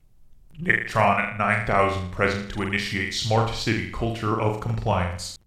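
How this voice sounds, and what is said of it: Robot voice. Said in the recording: “I got to break out my robot voice again”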